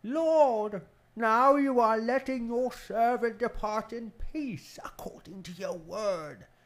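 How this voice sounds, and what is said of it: Biblical character voice of Simeon. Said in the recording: “put on a Simeon voice”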